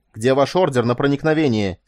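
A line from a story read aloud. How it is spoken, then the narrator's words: Angry exclamation. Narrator (Russian): сердито вскричал Мелиссор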